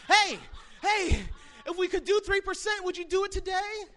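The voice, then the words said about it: Breathless, panting salesman voice. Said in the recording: “out of breath ... This is out of breath.”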